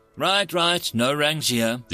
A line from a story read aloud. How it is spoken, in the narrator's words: the human said with a laugh